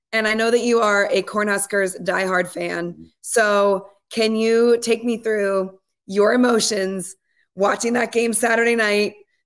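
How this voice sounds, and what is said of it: Slightly hoarse voice. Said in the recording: “the reason I'm a little hoarse is from doing a massive game on Saturday night”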